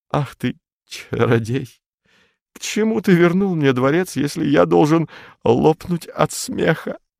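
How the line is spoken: Stammering whisper. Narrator (Russian): заикаясь, прошептал

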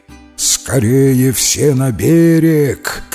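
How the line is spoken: Shouting. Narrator (Russian): крикнул он сородичам

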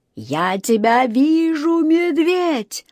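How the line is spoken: Wild, unrecognizable yelling. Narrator (Russian): не своим голосом вопил мистер Карри

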